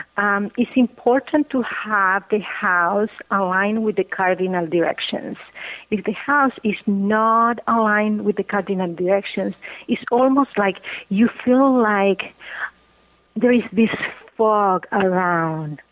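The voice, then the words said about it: Bolivian Spanish accent in English. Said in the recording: “is Bolivian, by the way, so you're hearing a Bolivian accent”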